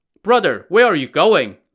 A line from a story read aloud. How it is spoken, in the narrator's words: Lin Chong asked